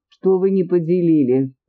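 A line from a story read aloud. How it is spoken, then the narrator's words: Laughing. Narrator (Russian): рассмеялась императрица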